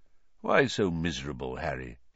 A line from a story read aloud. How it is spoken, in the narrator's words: he said quietly